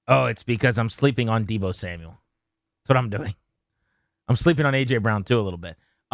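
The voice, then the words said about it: Impression of Danny Rouillet. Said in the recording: “I'm going to do an impression. ... I'm Danny Rouillet.”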